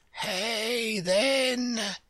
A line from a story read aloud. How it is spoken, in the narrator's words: the king murmured in a faint whisper